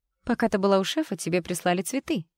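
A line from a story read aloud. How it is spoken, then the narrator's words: Joyful announcement. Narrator (Russian): радостно оповестила ее Даяна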